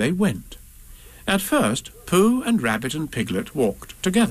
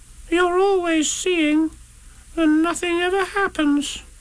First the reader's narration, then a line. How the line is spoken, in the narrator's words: said Roo sadly